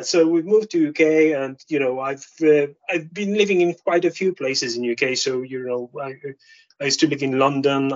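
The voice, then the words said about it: Polish accent. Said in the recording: “I'm Polish, obviously, as you can guess by my accent”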